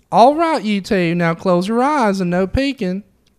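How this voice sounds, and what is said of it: Put-on Southern American accent. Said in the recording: “he's very Southern ... I can do a Southern accent”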